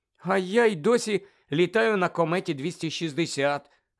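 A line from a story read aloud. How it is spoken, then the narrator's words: Envious groan. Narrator (Ukrainian): заздрісно простогнала Тонкс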